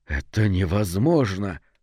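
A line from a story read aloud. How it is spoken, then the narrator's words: Whispered. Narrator (Russian): прошептал Брав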